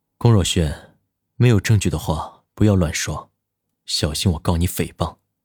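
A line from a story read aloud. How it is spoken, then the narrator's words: Flat, indifferent. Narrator (Chinese): 他淡淡的说道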